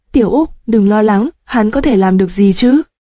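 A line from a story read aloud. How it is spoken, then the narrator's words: Loud laughing. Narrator (Vietnamese): Thái Thế Định cười lớn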